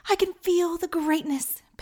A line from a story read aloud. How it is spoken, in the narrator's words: Peyton breathed